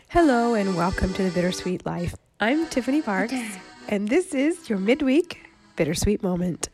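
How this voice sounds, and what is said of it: Congested voice from a cold. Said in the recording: “I apologize for the way I sound, because I have a cold.”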